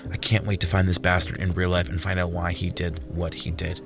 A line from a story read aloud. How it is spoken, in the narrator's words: Jordan muttered